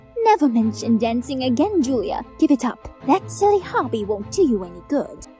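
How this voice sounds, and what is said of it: Whispering voice. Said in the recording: “my mom's voice whispering outside”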